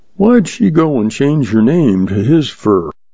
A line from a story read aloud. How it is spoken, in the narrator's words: The young man sighed